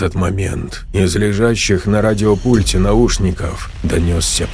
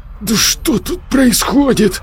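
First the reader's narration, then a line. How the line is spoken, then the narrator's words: Cursing through teeth. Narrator (Russian): выругался сквозь зубы Саня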